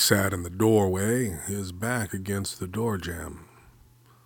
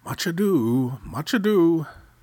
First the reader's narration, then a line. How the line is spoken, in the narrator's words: His father happily ate stew, saying